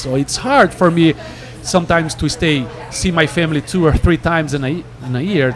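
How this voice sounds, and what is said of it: Non-native English accent. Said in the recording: “you can tell by my accent, I'm an immigrant here in the United States”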